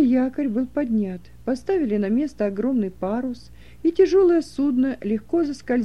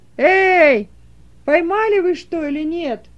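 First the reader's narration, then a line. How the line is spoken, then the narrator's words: Shouting across water. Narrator (Russian): крикнул по направлению к другой лодке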